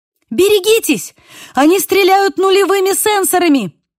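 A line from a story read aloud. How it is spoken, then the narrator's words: Shouting. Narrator (Russian): крикнула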